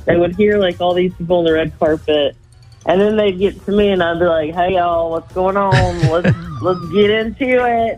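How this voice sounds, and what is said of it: Southern American accent. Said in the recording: “I think it's the Southern accent.”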